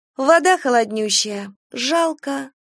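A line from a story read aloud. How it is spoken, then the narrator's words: Sigh. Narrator (Russian): вздохнула Катя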